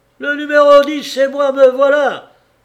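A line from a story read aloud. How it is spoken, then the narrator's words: Frightened shout. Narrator (French): crie-t-il tout effaré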